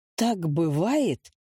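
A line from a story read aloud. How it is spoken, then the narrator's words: Strained, barely forced out. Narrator (Russian): это все, что он смог из себя выдавить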